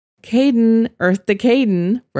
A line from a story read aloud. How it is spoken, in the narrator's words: Rose laughed